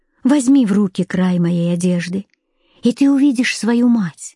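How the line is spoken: Gentle reply. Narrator (Russian): Она ласково ответила ему

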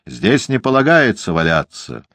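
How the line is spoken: Policeman shouting. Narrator (Russian): закричал полицейский

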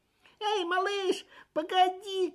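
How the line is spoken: Calling after someone. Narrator (Russian): крикнул кто-то ему вслед

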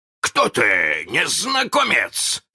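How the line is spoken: Shouting. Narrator (Russian): закричал он

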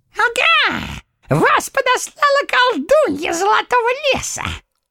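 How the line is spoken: Gloating squeaky little man. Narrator (Russian): злорадно пропищал человечек

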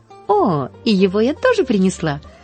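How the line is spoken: Laughing. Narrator (Russian): засмеялась Поллианна

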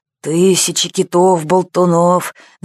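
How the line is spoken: Grumbling. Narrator (Russian): заворчал полубородый капитан

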